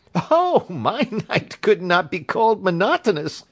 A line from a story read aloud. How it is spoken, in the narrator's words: said he, and laughed